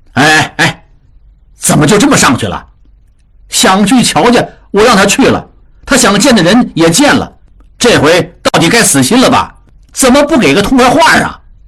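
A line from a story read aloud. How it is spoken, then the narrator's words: Shouting. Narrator (Chinese): 江父对江母喊道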